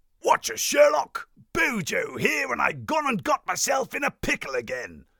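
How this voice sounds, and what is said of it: Boris Johnson impression. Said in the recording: “put on the PM's accent”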